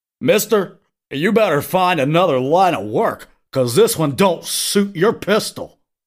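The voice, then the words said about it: Silly Invisible Grandpa character voice. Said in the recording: “just sound like Invisible Grandpa ... You sound like the dweeb man ... I gotta keep doing the voice”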